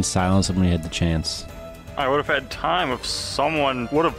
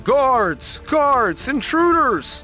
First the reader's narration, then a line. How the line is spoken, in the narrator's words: start yelling